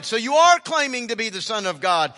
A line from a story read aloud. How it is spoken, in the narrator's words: They all shouted